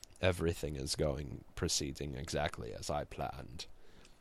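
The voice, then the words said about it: Darkseid impression. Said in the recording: “my Darkseid impression”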